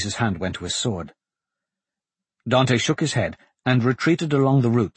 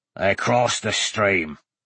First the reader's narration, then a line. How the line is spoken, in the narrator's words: they heard, a harsh, deep voice that rumbled through the air